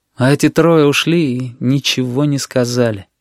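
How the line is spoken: Sad. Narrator (Russian): печально произнес Генка

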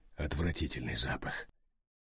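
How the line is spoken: Strangled voice. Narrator (Russian): сдавленным голосом согласился с ним Тони

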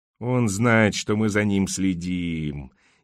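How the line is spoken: Disbelieving groan. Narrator (Russian): не веря своим глазам, простонал Энди

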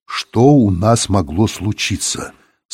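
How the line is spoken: Through gritted teeth. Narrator (Russian): сказал он сквозь зубы

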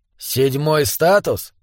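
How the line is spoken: Muttered. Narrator (Russian): пробормотал Флорин

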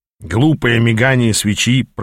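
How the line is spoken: Grumbling. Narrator (Russian): пробурчал Ааз

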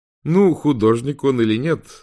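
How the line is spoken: Laughing. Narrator (Russian): рассмеялся Уинстон

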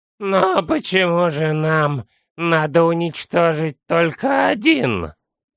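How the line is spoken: Hoarse wheeze. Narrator (Russian): прохрипел Санделла

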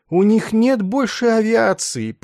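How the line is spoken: Groaning. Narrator (Russian): простонал он

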